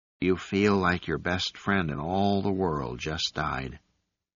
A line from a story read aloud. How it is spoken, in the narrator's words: told gently